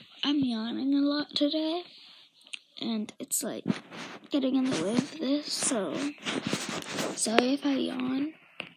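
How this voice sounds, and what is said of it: Childlike-sounding voice. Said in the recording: “Why do you sound like a child?”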